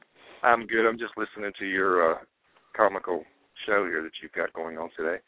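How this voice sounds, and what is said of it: Southern American accent. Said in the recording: “The Southern accent.”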